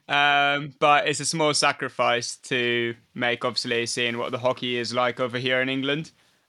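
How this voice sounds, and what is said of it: Slight Maltese accent. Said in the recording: “I'm picking up a bit of an accent there from you. Whereabouts are you from? ... I'm born in Malta.”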